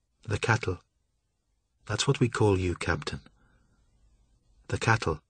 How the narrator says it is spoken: Leaden silence for a moment, and then, softly, said

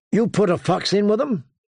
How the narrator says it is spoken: John called out

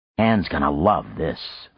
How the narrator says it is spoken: Frank muttered

